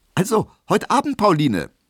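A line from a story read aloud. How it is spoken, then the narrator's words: Called out. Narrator (German): rief er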